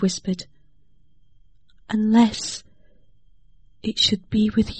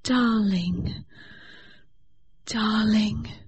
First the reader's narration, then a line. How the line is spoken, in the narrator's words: she murmured